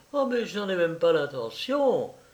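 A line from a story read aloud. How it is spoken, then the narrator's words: Quick exclamation. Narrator (French): s'écria-t-elle vivement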